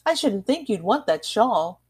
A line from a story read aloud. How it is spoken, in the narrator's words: Daisy exclaimed